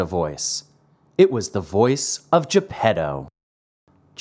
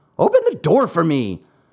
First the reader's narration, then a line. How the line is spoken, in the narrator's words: Geppetto shouted from the street